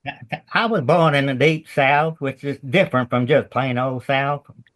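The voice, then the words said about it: Southern American accent. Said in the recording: “I never lost my Southern accent”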